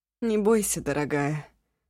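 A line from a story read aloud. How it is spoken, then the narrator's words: Hoarse, unsmiling. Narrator (Russian): сипло без улыбки сказала Ашун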